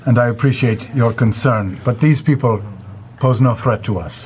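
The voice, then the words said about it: Good put-on foreign accent. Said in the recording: “That is a really good accent ... you're so good at that”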